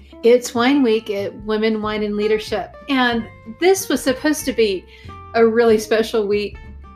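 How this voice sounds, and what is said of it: Texas accent. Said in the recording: “Austin, Texas, which is where I'm from, if you can't tell by the accent.”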